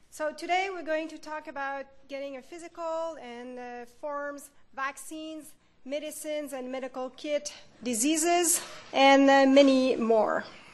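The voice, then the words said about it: Strong French accent in English. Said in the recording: “French is my first language ... my accents, my big French accents”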